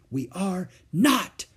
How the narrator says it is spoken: whispered Beezus furiously

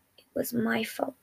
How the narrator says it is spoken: managed to mumble out

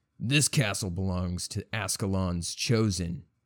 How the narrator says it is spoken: his voice boomed out

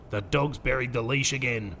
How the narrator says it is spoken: growling one winter evening

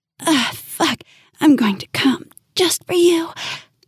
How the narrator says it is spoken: panted into my ear

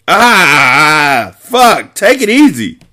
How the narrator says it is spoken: he shouted in pain

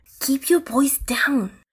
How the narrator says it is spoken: whispered Ivan urgently

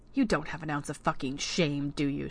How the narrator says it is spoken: she hissed, unable to stop herself

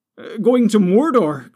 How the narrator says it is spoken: cried Pippin

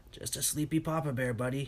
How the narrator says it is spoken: said, in a gruff voice

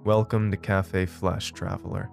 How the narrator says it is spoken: he said, his voice deep but reassuring

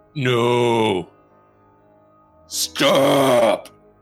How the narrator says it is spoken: groaning

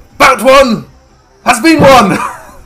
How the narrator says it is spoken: Mafika stands up and shouts

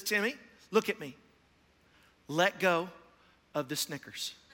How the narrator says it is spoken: very calmly, and he says

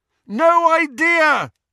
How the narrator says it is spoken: Harry bellowed back

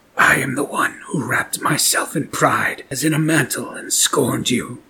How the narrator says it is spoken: rasped

